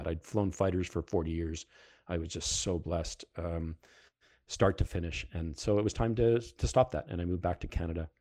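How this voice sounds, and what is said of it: Heavy Canadian, Fargo-style accent. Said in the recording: “my accent is coming back very heavily these days ... if you don't, down south, you don't understand my accent, go watch the movie Fargo”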